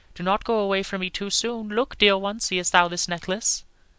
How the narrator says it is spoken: he said eagerly

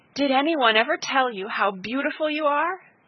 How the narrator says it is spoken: she cried

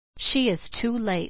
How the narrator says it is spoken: said Elnora coldly

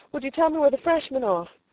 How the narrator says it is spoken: panted

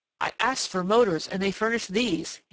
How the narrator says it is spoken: he cried disgustedly

